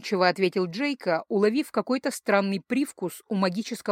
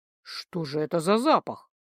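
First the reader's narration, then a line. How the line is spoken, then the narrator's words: Involuntary mutter. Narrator (Russian): невольно пробормотал он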